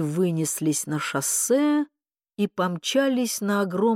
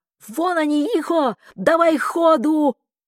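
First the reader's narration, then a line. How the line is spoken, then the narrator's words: Sudden shout. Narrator (Russian): Вдруг крикнула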